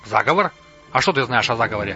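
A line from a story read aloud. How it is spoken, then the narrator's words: Plain. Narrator (Russian): спросил Бугашит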